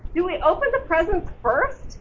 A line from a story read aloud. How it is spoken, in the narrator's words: Mouse asked eagerly